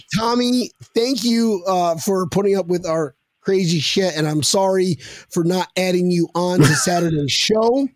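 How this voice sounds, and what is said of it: Hoarse, worn-out voice. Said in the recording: “I'm whispering right now, and I'm so close to my phone... I can't do it. My voice is shot.”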